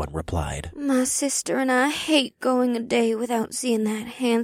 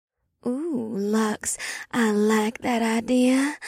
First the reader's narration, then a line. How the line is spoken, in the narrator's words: her sister half moaned